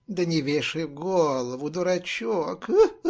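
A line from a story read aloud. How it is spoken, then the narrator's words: Mocking, soothing. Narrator (Russian): Насмешливо успокоила она его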